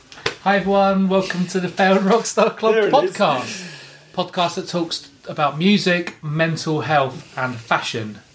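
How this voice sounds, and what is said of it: Radio announcer voice. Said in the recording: “Let's hear the voice ... Ready for my radio voice?”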